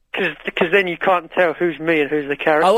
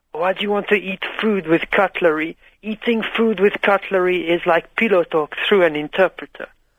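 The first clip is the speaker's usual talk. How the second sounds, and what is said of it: Put-on French accent. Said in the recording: “But why are you doing a French accent?”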